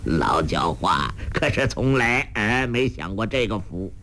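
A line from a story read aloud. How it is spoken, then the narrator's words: Laughing. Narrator (Chinese): 洪七公笑道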